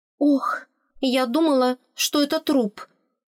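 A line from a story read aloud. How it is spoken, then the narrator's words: Trembling voice. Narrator (Russian): Дрожащим голосом призналась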